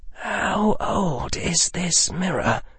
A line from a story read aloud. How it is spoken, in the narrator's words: Harry said in almost a whisper